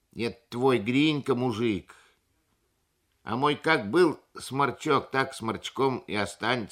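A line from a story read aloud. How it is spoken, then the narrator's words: Plain. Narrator (Russian): сказала Мария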